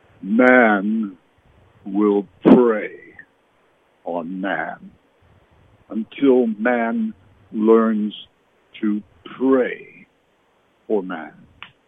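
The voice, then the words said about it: Deep impersonated voice. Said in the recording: “My best impersonation, deep voice,”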